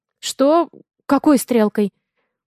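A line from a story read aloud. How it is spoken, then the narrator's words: Frightened question. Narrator (Russian): Переспрашиваю испуганно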